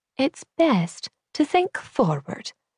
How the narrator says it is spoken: Julia said gently

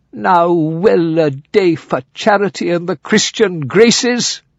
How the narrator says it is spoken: cried Sir Oliver lamentably

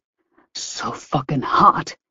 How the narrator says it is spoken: he growled

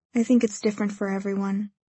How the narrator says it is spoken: he says quietly

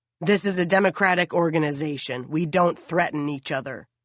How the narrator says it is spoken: the president replies sternly

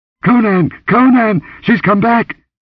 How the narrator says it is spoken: The shriek ended in a gurgle

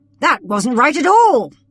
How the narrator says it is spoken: exclaimed from the opposite end of the room

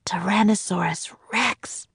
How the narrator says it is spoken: whispered Jack

